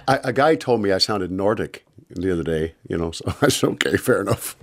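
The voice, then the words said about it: Strong regional accent. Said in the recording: “your accent gets stronger ... I think your accent's really strong, especially when you talk about where you're from”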